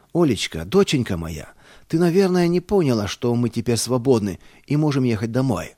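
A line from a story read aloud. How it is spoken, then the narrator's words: Joyful shout. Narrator (Russian): радостно закричал я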